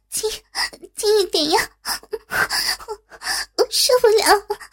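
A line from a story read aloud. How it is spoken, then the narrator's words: Breathless, coquettish. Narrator (Chinese): 只听见朱茵娇喘连连的说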